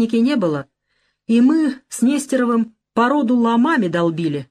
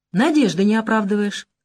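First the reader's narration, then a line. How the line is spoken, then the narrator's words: Calm. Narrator (Russian): спокойно сказал Агафонов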